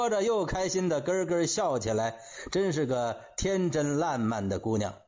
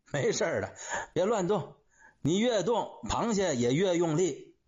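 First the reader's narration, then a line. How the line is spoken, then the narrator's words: Amused comforting. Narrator (Chinese): 钟海涛憋不住笑了，安慰他说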